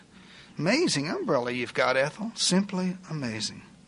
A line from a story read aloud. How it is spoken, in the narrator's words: Melba would quietly respond